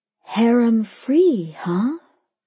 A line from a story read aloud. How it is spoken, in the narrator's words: I breathed back